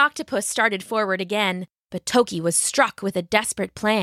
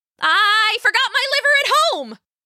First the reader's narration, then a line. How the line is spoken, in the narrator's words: she yelled